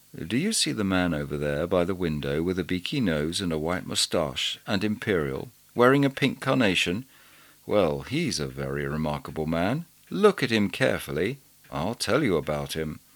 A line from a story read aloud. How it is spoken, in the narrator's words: said quietly